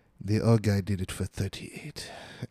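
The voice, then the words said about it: Badly done put-on accent. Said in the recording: “And excuse my accent. It's really bad.”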